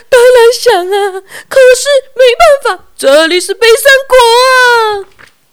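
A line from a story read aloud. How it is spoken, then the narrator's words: King crying. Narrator (Chinese): 国王哭着回答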